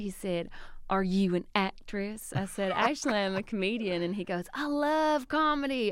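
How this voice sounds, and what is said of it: Southern American accent. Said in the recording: “That southern accent ... he heard my accent”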